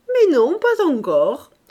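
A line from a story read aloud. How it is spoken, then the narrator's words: Laughing reply. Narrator (French): répondit-il en riant également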